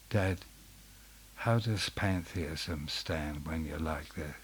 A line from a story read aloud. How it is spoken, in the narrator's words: I was a little scared and I quietly said